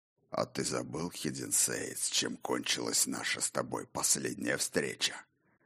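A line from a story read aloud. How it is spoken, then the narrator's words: Hoarse question. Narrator (Russian): хрипло осведомился сухая рука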